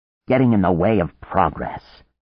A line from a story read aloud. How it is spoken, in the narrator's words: Anne said bitterly